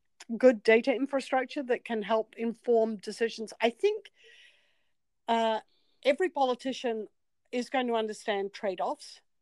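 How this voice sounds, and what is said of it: New Zealand accent. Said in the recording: “As you can tell from my accent, I'm not from New York ... I'm from New Zealand.”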